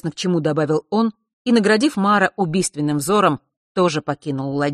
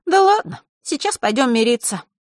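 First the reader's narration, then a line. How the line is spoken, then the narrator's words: Sighed. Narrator (Russian): вздохнула Захара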